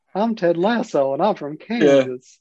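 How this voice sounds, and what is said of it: Weird cowboy accent impression. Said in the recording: “he does this like weird cowboy a fact ... That was a dynamite impression ... well, I tried.”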